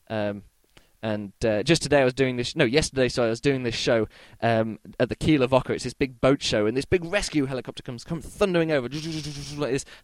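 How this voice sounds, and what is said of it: Slightly croaky, hoarse voice. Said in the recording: “bit more croaky than normal, because I've been doing lots of shows today here in Kiel, so I've been shouting a lot ... my voice is a little bit croaky now”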